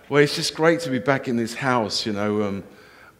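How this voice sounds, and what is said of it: Southern Texas accent. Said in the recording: “You probably can gather from my accent that I'm from Texas. ... Southern Texas”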